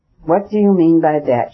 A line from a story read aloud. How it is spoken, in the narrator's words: she cried, looking with terror